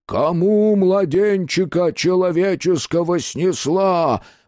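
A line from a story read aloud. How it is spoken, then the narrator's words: Booming voice from darkness. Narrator (Russian): прогремел голос из сердца тьмы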